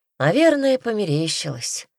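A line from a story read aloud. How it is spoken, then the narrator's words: Sighing. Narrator (Russian): вздохнул Петька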